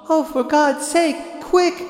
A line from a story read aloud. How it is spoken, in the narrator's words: cried, pale with fear